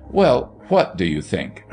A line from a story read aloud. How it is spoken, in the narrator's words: her mother asked sharply